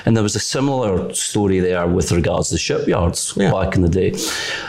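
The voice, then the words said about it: Scottish accent. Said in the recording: “you could probably tell from my accent, I'm from Scotland”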